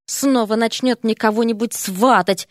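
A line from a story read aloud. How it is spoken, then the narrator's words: Muttered. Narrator (Russian): пробормотал Эрик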